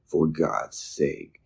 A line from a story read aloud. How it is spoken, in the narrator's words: Peterson exclaimed